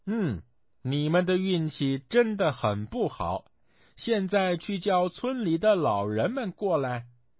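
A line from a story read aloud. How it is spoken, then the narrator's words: Laughing. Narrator (Chinese): 孙悟空笑道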